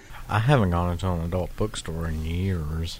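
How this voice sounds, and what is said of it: Sad, low, quiet delivery. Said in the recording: “He sounds so sad ... Speaking so low into the microphone.”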